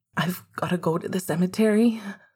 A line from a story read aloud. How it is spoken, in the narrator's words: Sirius said, his voice still quivering